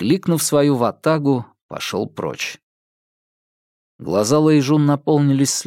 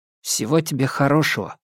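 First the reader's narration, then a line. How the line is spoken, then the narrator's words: Quiet wish. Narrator (Russian): тихо пожелал ей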